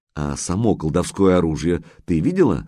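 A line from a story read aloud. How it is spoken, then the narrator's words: Plain. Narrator (Russian): спросил майор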